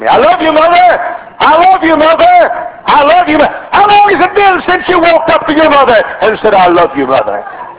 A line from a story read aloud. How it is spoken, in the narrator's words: I shouted so Mother could hear me